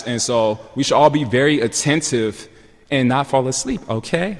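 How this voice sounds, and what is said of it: Raised, loud voice. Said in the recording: “That's why I'm raising my voice.”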